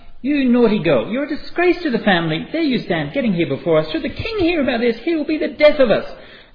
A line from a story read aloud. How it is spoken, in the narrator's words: being angry, she cried out